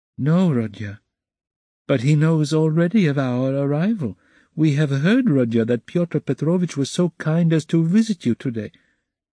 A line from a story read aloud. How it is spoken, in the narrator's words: Pulcheria Alexandrovna added somewhat timidly